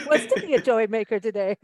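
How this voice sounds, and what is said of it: Silly voice for talking to a dog. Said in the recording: “in my dog talking voice.”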